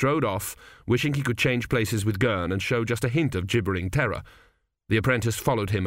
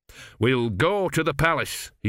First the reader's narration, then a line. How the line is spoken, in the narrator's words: he said firmly